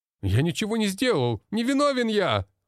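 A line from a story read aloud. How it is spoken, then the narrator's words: Blond man shouting, struggling. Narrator (Russian): кричал блондин, пытаясь вырваться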